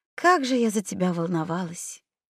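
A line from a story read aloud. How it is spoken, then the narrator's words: Soft whisper. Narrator (Russian): тихо прошептав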